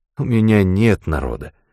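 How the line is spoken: Weary. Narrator (Russian): устало сказал Дантон

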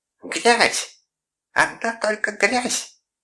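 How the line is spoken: Shrieking. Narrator (Russian): визжала Мэри

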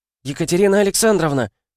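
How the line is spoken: Squeal. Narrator (Russian): Взвизгнула она

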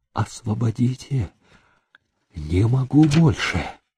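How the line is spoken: Faded, pale whisper. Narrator (Russian): Счастливое выражение на лице угасло, он побледнел и прошептал

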